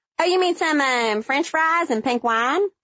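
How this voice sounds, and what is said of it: Thick North Carolina Southern accent. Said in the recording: “in my thickest Yadkin County, North Carolina accent”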